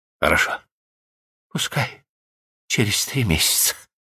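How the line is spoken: Whispered. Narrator (Russian): прошептала

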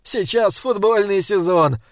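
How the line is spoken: Laughing. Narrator (Russian): рассмеялся я

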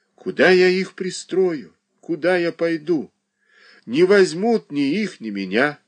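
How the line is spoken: Sighing. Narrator (Russian): вздохнула Марья Дмитриевна

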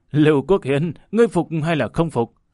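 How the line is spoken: Loud hearty laughter. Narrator (Vietnamese): Hồ Bất Quy ha hả cười to nói

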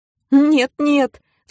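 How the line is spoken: Sobbing. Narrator (Russian): всхлипнул Митрофанушка

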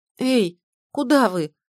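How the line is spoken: Bewildered shout. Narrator (Russian): растерянно крикнула я

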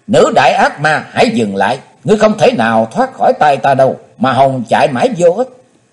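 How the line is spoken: Loud shout. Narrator (Vietnamese): Chí Tôn hét to

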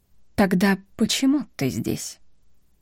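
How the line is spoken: Calm, suppressed anger. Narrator (Russian): Он говорил спокойным тоном, как врач или учитель, но щеки его покрылись красными пятнами гнева

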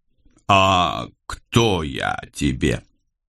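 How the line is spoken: Slow. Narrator (Russian): медленно произнес я

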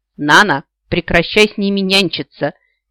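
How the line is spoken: Impatient growl. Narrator (Russian): нетерпеливо рыкнула темно-серая

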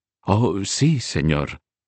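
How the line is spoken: Trembling voice. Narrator (Spanish): respondió María con voz temblorosa

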